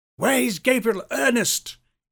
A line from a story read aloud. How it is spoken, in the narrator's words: almost screamed